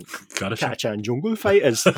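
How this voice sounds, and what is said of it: Put-on Geordie accent. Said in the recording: “say their name in a Geordie accent.”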